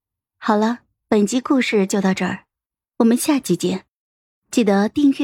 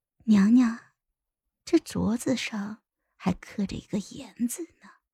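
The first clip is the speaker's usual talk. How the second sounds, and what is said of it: Low, hushed, sly voice. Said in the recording (Chinese): “低低的笑了笑，像一条毒蛇吐着信子，用只有我和皇后两个人能听到的声音说”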